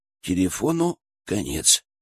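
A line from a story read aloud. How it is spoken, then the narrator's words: Sad. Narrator (Russian): печально произнес Максим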